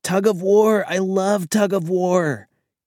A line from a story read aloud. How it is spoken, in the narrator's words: Karen exclaimed immediately